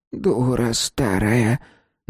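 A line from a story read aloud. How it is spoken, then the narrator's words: Strained, forced out. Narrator (Russian): наконец выдавила она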